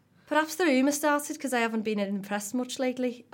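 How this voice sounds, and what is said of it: Put-on Scouse woman's voice. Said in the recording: “I can do a Scouse accent ... Shall I just do it in a Scouse woman's voice? ... am I getting a bit brummy here?”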